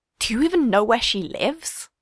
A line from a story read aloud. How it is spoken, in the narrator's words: Steve hisses in Rachel's ear